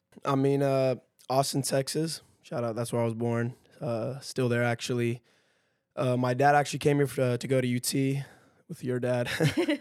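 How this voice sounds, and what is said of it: Strained, worn-out voice. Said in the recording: “my voice is like shot”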